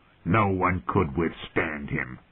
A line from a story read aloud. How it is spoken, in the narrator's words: the hound rasped